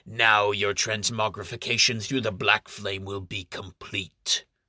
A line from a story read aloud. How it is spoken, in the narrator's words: the Heresiarch, who sneers